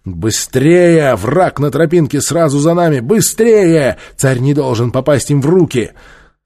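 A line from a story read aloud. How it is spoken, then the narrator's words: Loud shouting. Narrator (Russian): громко кричал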